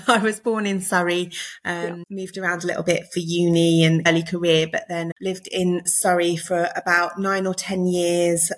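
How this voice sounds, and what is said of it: English accent, not Liverpool. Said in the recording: “I'm not a Scouser, in case you can't tell from my accent.”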